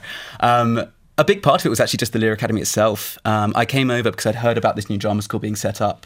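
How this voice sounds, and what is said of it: Strong English accent. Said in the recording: “such a strong English accent”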